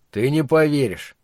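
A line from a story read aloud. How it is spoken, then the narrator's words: Gloomy. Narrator (Russian): мрачно ответил он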